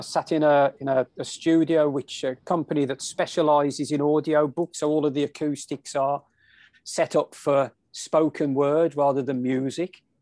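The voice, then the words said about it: English accent. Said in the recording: “this English accent”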